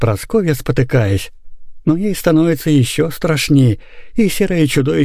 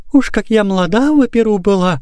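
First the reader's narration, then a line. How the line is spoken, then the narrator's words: Trembling plaintive singing. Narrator (Russian): дрожащим голосом затягивает она, но песня как-то глухо и жалобно отдается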